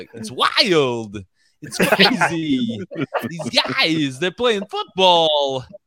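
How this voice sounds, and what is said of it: Imitates another person's voice. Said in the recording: “probably my best impression is probably the one that everybody's best impression is like Christopher Walken. I can do a pretty good Christopher Walken.”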